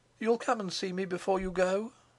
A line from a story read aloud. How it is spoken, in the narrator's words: pleaded